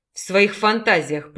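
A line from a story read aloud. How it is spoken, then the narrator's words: Bestial growl. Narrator (Russian): прорычал Талгат, трансформируясь в зверя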